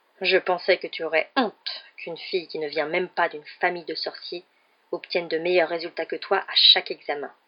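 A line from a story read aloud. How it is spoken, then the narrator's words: Curt retort. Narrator (French): lança sèchement M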